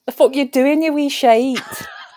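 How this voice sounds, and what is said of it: Attempted Scottish accent. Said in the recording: “your impression of that gets better as the months go on... It's the only thing I can say in your accent... And even that is questionable... Scottish”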